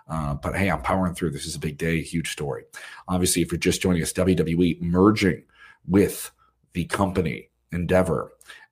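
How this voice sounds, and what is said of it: Worn-out, strained voice. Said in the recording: “My voice is kind of worn out.”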